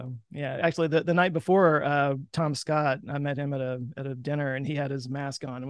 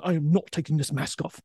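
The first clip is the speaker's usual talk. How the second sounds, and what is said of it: Imitates another person's voice. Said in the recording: “terrible Tom Scott impression ... it wasn't bad”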